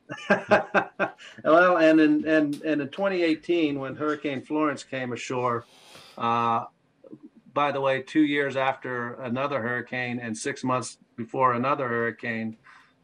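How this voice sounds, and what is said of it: North Carolina accent. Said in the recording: “I actually grew up in North Carolina ... I hear it in your accent.”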